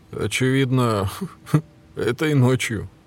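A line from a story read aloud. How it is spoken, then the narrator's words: Chuckle. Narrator (Russian): Барни хохотнул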